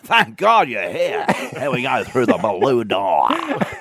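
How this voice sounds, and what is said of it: Impression of host Shane Bourne. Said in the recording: “Did they have a host like Shane Bourne? ... Moon's impressions ... I do that impression”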